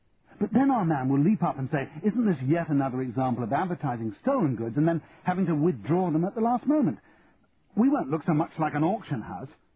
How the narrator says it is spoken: said Simon, his voice rising with anger

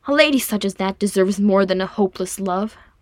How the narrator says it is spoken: Frerin said hotly

